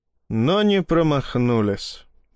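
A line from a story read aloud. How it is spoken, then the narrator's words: Sighing. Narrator (Russian): вздохнул Ермолов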